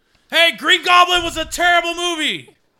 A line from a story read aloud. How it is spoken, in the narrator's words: I yell out